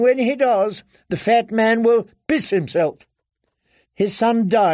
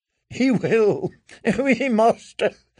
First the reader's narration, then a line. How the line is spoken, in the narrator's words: Lady Dustin chuckled